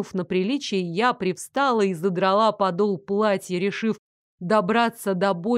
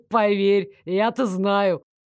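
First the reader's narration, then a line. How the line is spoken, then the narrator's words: Meaningful snort. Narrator (Russian): Многозначительно хмыкнул Дарек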